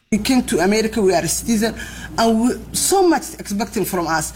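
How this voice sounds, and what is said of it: Thick accent. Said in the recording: “I know her accent is thick.”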